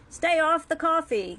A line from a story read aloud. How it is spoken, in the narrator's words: the SS yelled, smiling widely